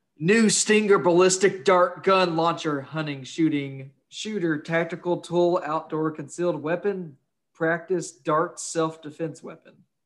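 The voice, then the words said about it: Raised, loud reading voice. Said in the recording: “part of it is in all exclamation points, so I have I have to raise my voice a little bit.”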